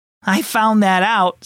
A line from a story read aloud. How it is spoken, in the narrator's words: said Reuben, laughing